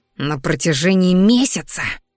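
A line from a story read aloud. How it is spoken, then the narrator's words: Coach hissing again. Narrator (Russian): вновь зашипел тренер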